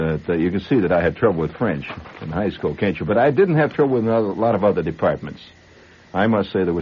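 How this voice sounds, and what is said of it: Usual voice. Nothing is said of it.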